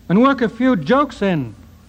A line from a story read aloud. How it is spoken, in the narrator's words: cried Heine